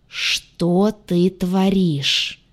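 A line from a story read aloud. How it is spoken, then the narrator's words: Muffled angry hiss. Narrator (Russian): злое шипение откуда-то из-за пуза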